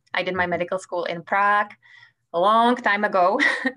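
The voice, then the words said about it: Czech accent. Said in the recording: “as you can tell from my accent, I come from Czech Republic.”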